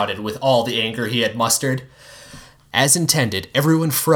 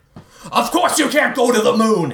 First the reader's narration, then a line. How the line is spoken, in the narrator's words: he yelled